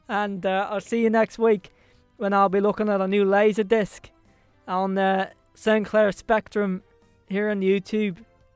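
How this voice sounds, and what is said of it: Put-on Irish accent drifting Belfast. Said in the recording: “I think my accent's gone a little bit there. ... I've gone Belfast all of a sudden. ... supposed to be Irish.”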